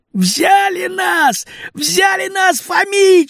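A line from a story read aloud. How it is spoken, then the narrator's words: Shouting. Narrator (Russian): закричал Васька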